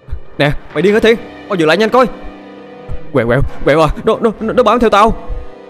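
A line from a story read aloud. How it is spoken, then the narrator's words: Fierce shout. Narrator (Vietnamese): Nó hét lên dữ dằn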